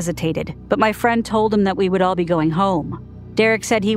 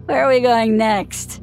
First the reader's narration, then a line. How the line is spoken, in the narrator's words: He slurred